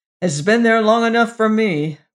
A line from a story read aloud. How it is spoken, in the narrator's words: growled the inspector